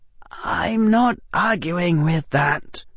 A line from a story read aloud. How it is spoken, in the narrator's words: Harry said quietly